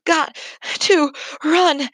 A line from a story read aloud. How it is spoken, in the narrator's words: gasped